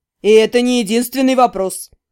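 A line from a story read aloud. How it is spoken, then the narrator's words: Snorting. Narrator (Russian): фыркнул Сирин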